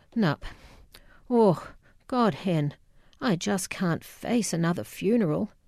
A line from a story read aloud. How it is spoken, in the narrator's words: said wearily, her voice a combination of guilt and relief